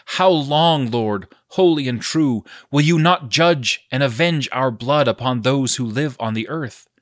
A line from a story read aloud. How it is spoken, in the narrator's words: they cried out in a loud voice, saying